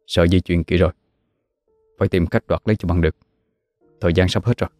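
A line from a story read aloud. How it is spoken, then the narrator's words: Muttering. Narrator (Vietnamese): Cậu lẩm bẩm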